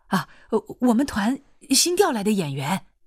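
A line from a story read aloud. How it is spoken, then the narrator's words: Hurried. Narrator (Chinese): 保卫科的人急忙说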